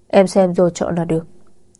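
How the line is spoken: Cold. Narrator (Vietnamese): anh lại lạnh lùng nói

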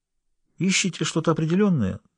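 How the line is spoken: Innocent-toned question. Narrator (Russian): самым невинным тоном поинтересовался Сандеман

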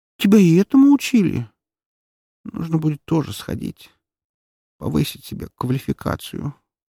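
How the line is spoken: Sleepy mumble. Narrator (Russian): сонно пробормотала фурсианка, погружаясь в царство снов

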